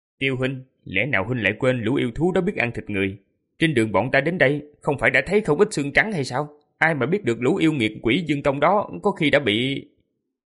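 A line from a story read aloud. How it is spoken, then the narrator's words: Cold voice. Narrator (Vietnamese): Lý Tuân lạnh lùng lên tiếng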